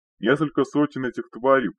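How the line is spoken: Old man shouting. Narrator (Russian): прокричал старик

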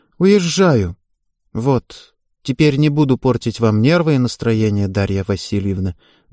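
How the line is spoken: Sad wry reply. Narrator (Russian): грустно усмехнувшись, ответила Ева

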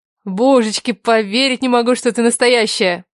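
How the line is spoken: Breathless. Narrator (Russian): Выдохнула она

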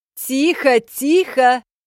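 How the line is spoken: Yelling. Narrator (Russian): орала Беатрис Калькут

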